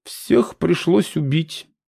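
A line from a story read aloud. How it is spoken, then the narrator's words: Sad female mage. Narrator (Russian): печально заявила одна из магес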